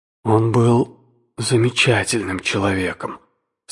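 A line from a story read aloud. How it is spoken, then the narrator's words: Unsteady voice. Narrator (Russian): сказал я нетвердым голосом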